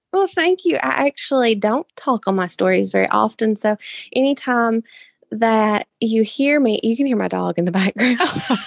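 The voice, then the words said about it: Warm, lovely accent. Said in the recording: “hear your just warm, lovely accent. It does not disappoint. It's beautiful.”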